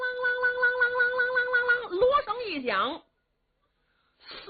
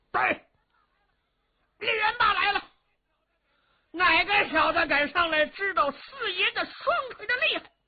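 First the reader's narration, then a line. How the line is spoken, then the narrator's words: Thunderous shout. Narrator (Chinese): 李元霸 抖丹天喝喊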